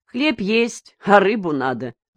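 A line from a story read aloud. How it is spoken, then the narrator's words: Laughing. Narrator (Russian): засмеялся Еусин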